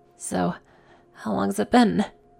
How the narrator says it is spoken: She breathed out, with a smile

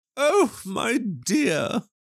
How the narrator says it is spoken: cried her mother

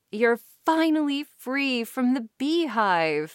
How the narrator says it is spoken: my mom cried happily with a broken smile

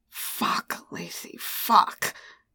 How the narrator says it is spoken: he growled

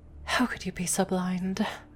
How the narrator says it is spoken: Luna whispers to herself

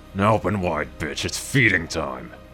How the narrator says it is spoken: grunted

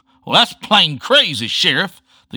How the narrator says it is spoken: the kid bellowed

